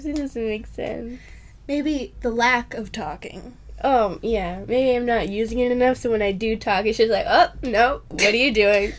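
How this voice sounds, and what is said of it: Hoarse, scratchy, strained voice. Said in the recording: “At least I have a reason to lose my voice ... I actually yell ... just right up in my throat, just getting scratched up like little knives ... I don't know why I'm losing my voice.”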